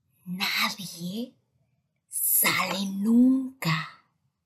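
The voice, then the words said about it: Soft, secretive whisper. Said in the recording (Spanish): “bajando la voz hasta convertirla en un suave, secreto susurro”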